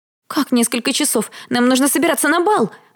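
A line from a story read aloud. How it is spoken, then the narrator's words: Shriek. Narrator (Russian): взвизгнула Дэрил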